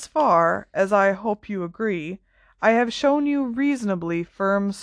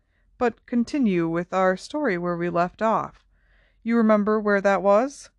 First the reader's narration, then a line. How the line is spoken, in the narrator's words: said Dumbledore more kindly